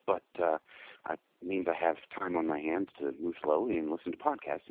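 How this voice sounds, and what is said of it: Hoarse, sick-sounding voice. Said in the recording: “I have the flu, so pardon me if I sound a little hoarse,”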